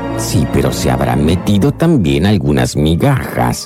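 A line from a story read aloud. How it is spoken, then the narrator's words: Grumbling. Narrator (Spanish): gruñó el sombrerero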